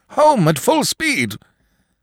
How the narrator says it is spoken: shouted to his coachman in an unnatural voice

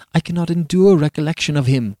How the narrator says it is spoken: cried the poor Countess slavishly

